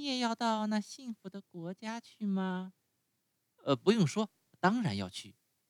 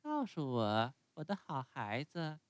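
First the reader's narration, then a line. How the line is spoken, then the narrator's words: Laughing question. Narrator (Chinese): 赶车的笑着问他说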